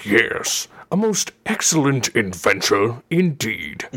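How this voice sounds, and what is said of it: Cartoon robot villain character voice. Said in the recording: “I love doing the voice ... Voice? What voice? ... This voice. Yes, Megatron.”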